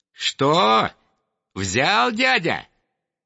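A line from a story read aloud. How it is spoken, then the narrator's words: Squeaky. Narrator (Russian): пищал Комар Комарович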